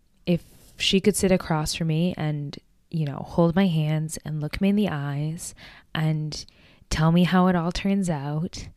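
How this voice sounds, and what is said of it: Emotional, moved voice. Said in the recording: “Oh my gosh, I'm getting emotional.”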